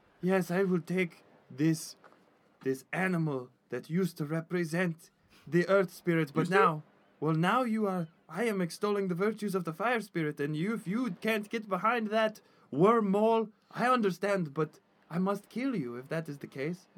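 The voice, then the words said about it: Well-done creature character accent. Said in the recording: “That was an A+ wormhole accent.”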